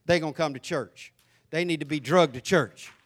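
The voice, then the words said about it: Thick Southern American accent. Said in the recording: “your accent is so thick”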